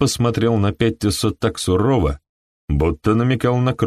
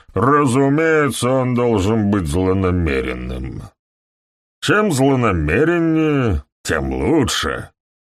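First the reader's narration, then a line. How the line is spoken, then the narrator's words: Booming voice. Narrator (Russian): прогремел доктор Фелл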